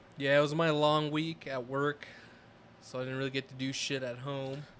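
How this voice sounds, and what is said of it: Voice sounds sick. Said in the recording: “I was sick. You tell by my voice.”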